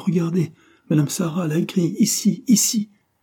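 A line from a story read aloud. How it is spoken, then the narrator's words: Exclaimed. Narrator (French): s'écria Antonia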